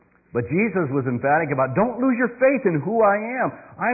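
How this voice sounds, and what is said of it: Usual voice. Nothing is said of it.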